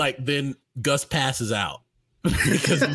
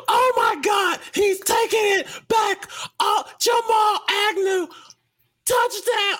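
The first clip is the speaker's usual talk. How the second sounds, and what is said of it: Excited sportscaster play-by-play call. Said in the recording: “my best Gus Johnson impression ... he's used all his energy to describe the play ... That was good.”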